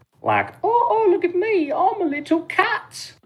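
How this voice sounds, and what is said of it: Silly little cat voice. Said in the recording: “giving it a stupid little voice.”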